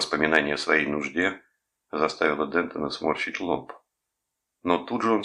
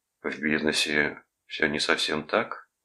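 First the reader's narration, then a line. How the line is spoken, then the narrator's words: Soft objection. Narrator (Russian): мягко возразил Рудольф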